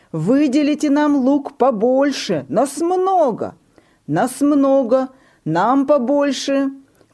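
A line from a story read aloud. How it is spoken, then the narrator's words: Shouting in chorus. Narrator (Russian): кричали вместе с ребятами Наташа и Муся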